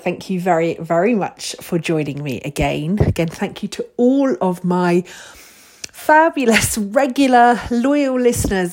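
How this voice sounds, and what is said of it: Slightly strained, delicate voice. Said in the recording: “My voice is a little bit delicate”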